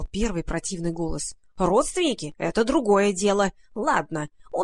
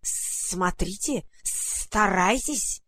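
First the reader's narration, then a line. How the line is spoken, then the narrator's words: Hissed. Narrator (Russian): прошипел второй голос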